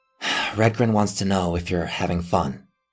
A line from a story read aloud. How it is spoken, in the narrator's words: Robin said, sighing